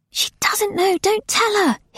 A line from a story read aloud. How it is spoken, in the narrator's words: hissed Nona